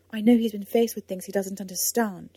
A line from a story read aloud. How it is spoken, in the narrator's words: she said sharply